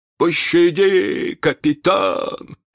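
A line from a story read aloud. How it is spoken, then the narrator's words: Trembling whimper. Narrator (Russian): захныкал Старки, дрожа всем телом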